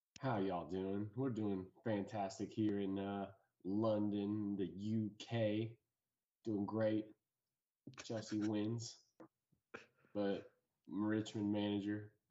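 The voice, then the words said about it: Ted Lasso-style folksy American impression. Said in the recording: “Ted Lasso ... rate that impression? ... I'll give it a 9 out of 10. Honestly, that was good. ... It's the charisma that really pulls the impression”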